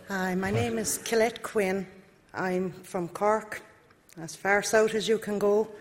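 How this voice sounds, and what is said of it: Accent unlike the others. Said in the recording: “she hasn't got the same accent as everybody else”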